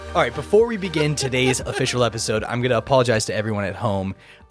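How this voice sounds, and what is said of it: Hoarse, gravelly voice after illness. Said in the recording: “I just got off being sick, so if you're hearing me like sniffling, like my throat sounds weird, my voice sounds weird because of my throat, or I'm coughing ... you get the little gravel in the back ... that frog”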